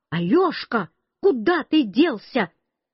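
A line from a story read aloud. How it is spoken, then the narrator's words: Shout from behind. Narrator (Russian): Бабушка совсем сзади меня кричала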